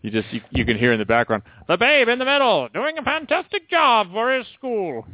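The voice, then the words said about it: Old-timey announcer voice. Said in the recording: “old-timey announcer ... a really good impression”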